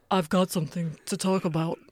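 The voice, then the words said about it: Deeper voice, slight British accent. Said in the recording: “lower my voice an octave ... You also went slightly British. ... a deeper British accent”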